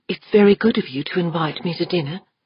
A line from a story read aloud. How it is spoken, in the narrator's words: said Catherine Westfall in a hushed little girl voice